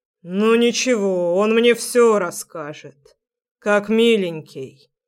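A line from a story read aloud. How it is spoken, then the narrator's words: Icy voice. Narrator (Russian): произносит отец ледяным голосом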